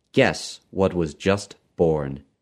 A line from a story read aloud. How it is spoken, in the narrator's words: he said